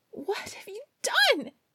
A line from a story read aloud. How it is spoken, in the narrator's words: she cried